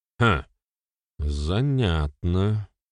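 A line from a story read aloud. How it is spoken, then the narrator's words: Grumble. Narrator (Russian): пробурчал Берослав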